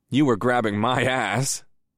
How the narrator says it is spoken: I chuckled

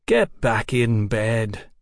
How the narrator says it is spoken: Mick said lazily

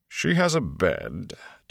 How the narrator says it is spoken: Tom said dryly

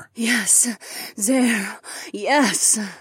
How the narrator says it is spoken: Taslin gasped, as shivers of pleasure began to pulse through her

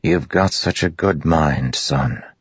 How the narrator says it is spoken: Liren said softly

